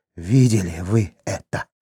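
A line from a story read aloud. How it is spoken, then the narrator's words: Exhausted hoarse wheeze. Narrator (Russian): прохрипел Хорват, обессиленный борьбою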